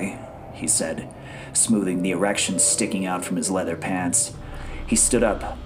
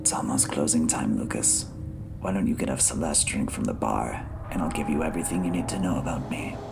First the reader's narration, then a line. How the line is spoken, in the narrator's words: whispered into his ear